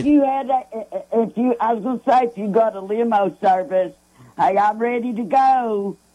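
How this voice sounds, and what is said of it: New Jersey accent. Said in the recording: “you can tell by her Jersey accent, can't you?”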